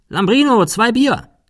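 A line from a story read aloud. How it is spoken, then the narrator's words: Calling inside. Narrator (German): Cecil rief nach innen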